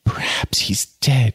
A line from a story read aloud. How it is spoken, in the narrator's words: she gasped